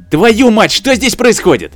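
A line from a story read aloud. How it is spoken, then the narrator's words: Angry shout. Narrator (Russian): Наконец, разозлившись, прокричал испанец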